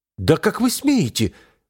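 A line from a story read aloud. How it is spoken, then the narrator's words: Exclaiming elf. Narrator (Russian): воскликнул эльф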